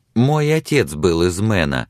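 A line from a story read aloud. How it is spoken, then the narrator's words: Joyful interruption. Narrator (Russian): радостно прервала она его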